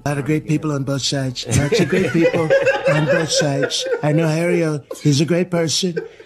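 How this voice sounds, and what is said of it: Donald Trump impression. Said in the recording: “Jamie Foxx doing an impression of Donald Trump”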